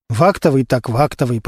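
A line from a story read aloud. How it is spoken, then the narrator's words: Muttering under breath. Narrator (Russian): пробормотал себе под нос Костя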